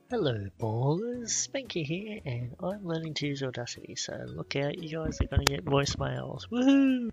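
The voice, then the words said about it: Australian accent. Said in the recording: “He's got this cute little Australian accent.”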